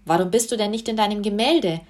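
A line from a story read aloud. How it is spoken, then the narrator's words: Plain. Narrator (German): fragte Susi weiter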